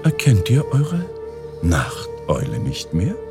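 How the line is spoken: Plain. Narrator (German): sagte sie

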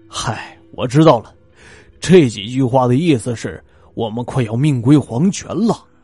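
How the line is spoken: Sudden bitter laugh. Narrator (Chinese): 丰本泰突然苦笑的说

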